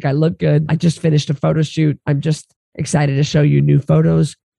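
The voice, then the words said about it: Hoarse voice. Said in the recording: “my voice is so hoarse. This laryngitis”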